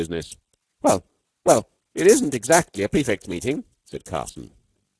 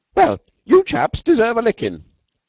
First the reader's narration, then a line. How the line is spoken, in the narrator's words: cried one Norton incautiously